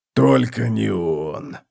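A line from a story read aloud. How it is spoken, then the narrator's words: Moaning. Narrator (Russian): простонал он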